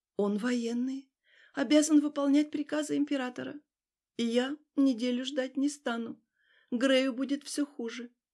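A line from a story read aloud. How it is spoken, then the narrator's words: Deathly voice. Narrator (Russian): отозвалась мертвецким голосом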